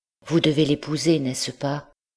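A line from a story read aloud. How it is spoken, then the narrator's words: Despairing, broken voice. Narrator (French): dans une de ces crises de désespoir, Blanche lui dit, d'une voix déchirée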